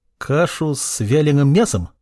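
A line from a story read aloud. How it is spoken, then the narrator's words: Uncertain question. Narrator (Russian): неуверенно спросил ученик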